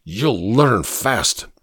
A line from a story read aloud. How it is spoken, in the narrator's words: replied in an angry voice